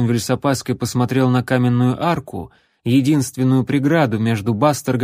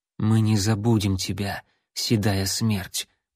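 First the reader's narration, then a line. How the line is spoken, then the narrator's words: Whisper. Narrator (Russian): прошептал Ларри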